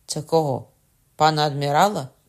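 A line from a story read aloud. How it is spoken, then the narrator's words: Cried out. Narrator (Ukrainian): скрикнув Кокона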